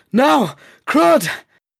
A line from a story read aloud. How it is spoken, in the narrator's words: bellow seemed to fill the cave, the tiny space sending his roar bouncing and reverberating from the walls